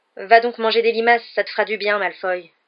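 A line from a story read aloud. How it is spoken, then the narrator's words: Furious tone. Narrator (French): dit Ron d'un ton furieux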